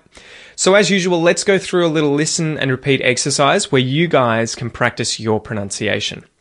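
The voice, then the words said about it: Australian English accent. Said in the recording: “Australian English pronunciation, copy my accent”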